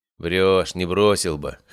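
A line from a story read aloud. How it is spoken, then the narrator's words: Scoffing snort. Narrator (Russian): хмыкнул я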